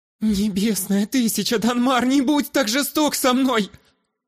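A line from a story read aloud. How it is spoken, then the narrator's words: Pleading. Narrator (Russian): Взмолилась Ирида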